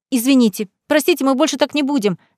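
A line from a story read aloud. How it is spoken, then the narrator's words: Squeaky voices together. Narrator (Russian): запищали мы с Марселой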